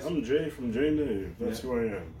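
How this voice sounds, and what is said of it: 1950s radio announcer voice. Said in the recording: “that's my acting voice ... You sound like a fucking... You know, like the 1950s... Is it like a 1950s radio guy? ... like you were on fucking Love Connection”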